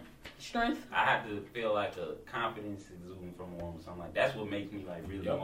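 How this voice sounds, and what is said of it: Usual voice. Nothing is said of it.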